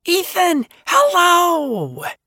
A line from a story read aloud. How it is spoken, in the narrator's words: Alice squeals